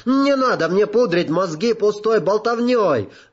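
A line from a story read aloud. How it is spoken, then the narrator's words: Shout. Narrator (Russian): закричал он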